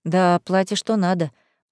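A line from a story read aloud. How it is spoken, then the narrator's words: Sigh. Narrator (Russian): вздохнула я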